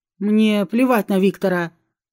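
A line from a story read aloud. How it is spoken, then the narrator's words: Growl. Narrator (Russian): рыкнул Александр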